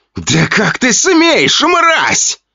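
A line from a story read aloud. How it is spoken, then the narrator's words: Duke shouting out. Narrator (Russian): выкрикнул герцог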